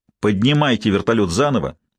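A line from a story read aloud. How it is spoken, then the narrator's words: Irritated, curt. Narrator (Russian): раздраженно бросил он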